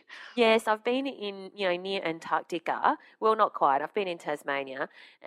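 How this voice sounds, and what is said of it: Deep, congested voice from a cold. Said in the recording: “You're sounding very butch today. ... I've got a cold, I think.”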